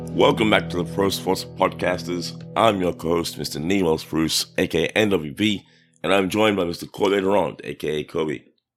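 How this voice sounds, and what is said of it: Slightly hoarse voice. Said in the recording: “You sound a little hoarse today.”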